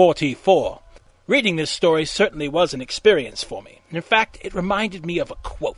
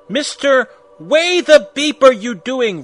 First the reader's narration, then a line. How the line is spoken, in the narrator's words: Rumbridge shouted angrily